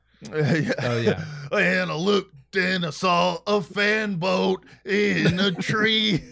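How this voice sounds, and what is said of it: Put-on Creole accent. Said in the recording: “is this not a Creole accent? ... Sounds like it to me.”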